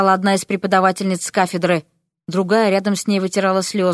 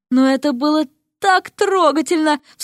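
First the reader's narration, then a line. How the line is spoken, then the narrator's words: Sobbing. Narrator (Russian): всхлипнула другая преподавательница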